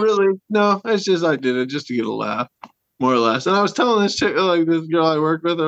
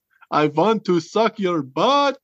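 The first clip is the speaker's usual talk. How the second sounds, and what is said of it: Put-on Transylvanian accent. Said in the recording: “in a Transylvanian accent, I would say this.”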